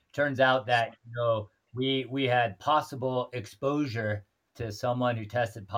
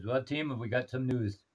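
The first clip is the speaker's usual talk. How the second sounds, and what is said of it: Imitated accent of a tour guide. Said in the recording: “I'm trying to emulate her accent here. ... Spot on.”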